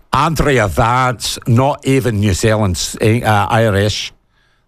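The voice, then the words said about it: Bad put-on Irish accent. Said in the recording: “That's a bad Irish accent.”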